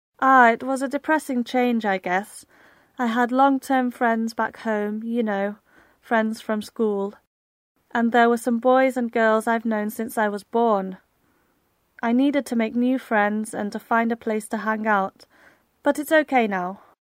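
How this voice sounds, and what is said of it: Slight Irish accent. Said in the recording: “your slight Irish accent”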